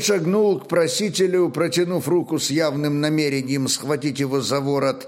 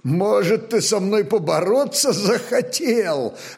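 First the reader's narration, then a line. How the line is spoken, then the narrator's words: Booming laugh, big man. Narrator (Russian): расхохотался здоровяк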